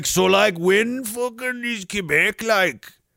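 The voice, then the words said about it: Half Saskatchewan, half Native accent. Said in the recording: “in this half Saskatchewan, half native accent.”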